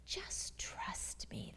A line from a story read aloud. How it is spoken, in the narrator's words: the servant whispered